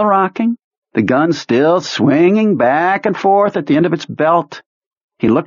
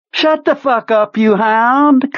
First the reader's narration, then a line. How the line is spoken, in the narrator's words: Kurtz said cheerfully